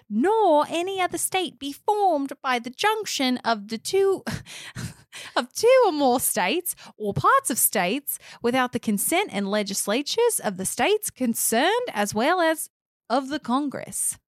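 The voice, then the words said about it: Put-on Australian accent. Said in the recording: “Your Australian accent.”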